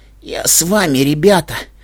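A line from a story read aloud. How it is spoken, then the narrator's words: Hoarse, strained speech. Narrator (Russian): прохрипела она, с трудом выговаривая каждое слово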